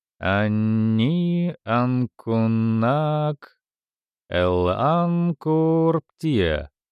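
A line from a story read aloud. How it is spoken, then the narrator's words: Singsong. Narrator (Russian): сказал Фредди нараспев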